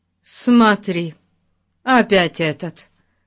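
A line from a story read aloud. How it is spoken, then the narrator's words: Exclaiming. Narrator (Russian): воскликнул Пип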